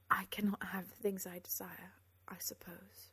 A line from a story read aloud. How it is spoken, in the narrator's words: she said softly